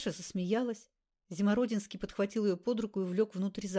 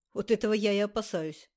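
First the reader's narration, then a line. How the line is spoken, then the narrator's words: Snorted. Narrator (Russian): фыркнул Андрей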